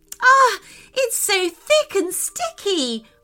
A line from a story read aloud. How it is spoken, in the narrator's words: cried Sophia